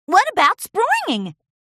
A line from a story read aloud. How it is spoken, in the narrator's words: squealed Apple Bloom